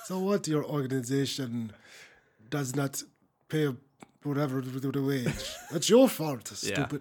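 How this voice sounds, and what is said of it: Put-on Russian accent. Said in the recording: “This is my Russian nerd. ... That was a great accent. ... It was terrible.”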